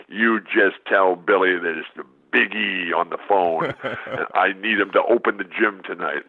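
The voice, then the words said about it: Imitates a big, deep voice. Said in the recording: “this big, deep voice on the other end ... this deep voice in the other says”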